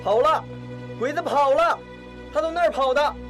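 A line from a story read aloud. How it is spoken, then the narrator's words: Soldier shouting loudly. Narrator (Chinese): 一个战士大声地喊着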